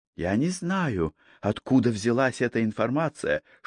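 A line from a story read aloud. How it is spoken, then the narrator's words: Whispered. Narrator (Russian): шепотом передала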